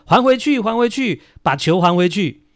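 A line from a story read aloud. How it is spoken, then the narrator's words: Unhappy fans shouting. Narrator (Chinese): 球迷也很不开心呐、啊，就喊说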